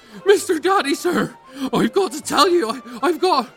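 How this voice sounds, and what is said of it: Breathless, panting speech. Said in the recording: “severely out of breath”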